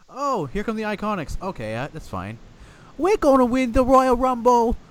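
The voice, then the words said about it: Bad put-on Australian accent. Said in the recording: “That was my bad Australian accent.”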